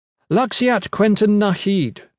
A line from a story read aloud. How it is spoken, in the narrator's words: she said loudly